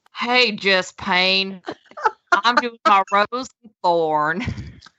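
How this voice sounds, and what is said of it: Bad put-on Southern Texas accent. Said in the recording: “the awful Southern Texas accent I tried to accomplish earlier in this episode. And I'll give it one more shot just for you”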